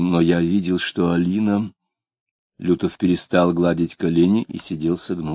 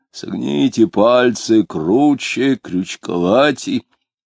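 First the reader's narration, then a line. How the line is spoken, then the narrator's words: Very deep bass voice. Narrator (Russian): дьякон говорил густейшим басом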